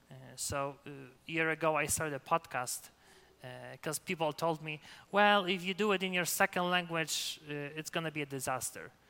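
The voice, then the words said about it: Slight non-native accent. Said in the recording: “do I have an accent? Yeah, you do ... you would hear the slight, you know, accent in my speech ... I will never sound as a native speaker”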